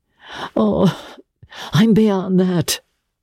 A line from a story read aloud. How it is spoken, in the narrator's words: he groaned